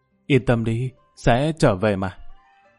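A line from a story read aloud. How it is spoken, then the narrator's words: Soft, gentle. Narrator (Vietnamese): An Bích Như khẽ nói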